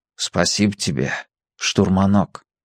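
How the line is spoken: Softly. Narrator (Russian): сказал тихонько

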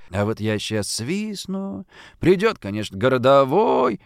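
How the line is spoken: Lazy drawl. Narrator (Russian): лениво протянул дворник

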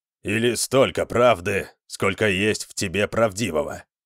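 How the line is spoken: Grumbling. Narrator (Russian): пробурчал Скирон

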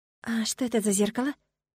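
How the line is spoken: Quiet question. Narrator (Russian): поинтересовалась тихо

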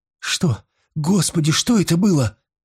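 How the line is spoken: Trembling, frightened question. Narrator (Russian): дрожащим голосом спросила Гудрун, успевшая заметить ужасные зубы на зловещей голове гадины

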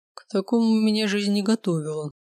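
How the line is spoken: Muffled, flat. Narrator (Russian): глухо произнес Дэн

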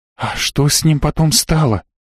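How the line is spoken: Whispered question. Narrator (Russian): шепотом спросила Йока

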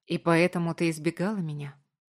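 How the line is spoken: Soft question. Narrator (Russian): мягко спросил я

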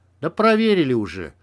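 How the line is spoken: Grumbling. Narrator (Russian): проворчал Макс

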